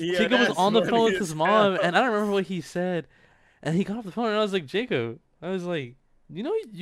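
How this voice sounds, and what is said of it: Usual voice. Nothing is said of it.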